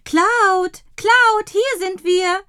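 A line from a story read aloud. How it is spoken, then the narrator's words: Calling out. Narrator (German): ruft Dottie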